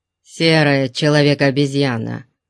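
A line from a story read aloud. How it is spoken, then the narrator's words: Gruff mutter. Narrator (Russian): буркнул Конан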